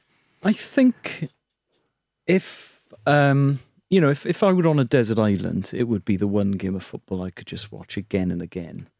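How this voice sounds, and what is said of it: Welsh accent. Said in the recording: “they will have picked up from your accent”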